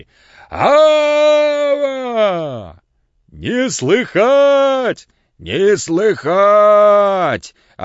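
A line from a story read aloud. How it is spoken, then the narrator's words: Loud sing-song answer. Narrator (Russian): ответил громко и нараспев Пантелей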